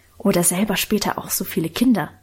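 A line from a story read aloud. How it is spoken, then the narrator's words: Whispered. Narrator (German): flüsterte Lenchen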